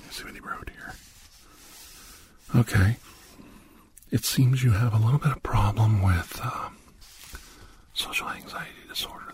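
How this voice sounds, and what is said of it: Very quiet, whispered speech. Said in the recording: “I'm talking very quietly ... he wants me to whisper”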